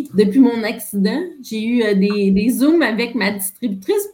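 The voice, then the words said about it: Québécois French accent. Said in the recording (French): “ton accent québécois ... J'ai perdu l'accent français”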